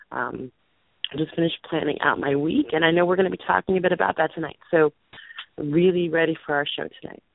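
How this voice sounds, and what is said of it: Hoarse, fading voice. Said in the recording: “losing my voice... recovering from not feeling very well”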